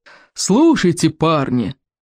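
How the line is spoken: Roared. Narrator (Russian): взревел плевака Крикливый

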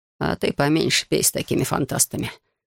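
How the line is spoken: Grim warning. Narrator (Russian): мрачно предупредил Манфред

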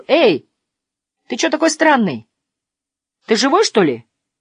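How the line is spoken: Cheerful young man asking. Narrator (Russian): крепкий молодой человек и весело спросил

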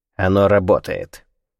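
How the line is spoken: Curt, clipped, decisive. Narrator (Russian): отрывисто произнес Кунсанг по-английски, словно обрубая любые сомнения

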